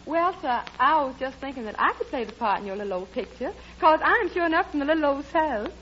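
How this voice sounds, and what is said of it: Put-on Southern US accent. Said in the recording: “a girl with a southern accent”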